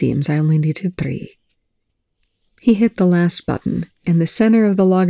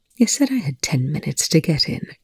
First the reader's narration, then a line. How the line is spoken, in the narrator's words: Rush murmured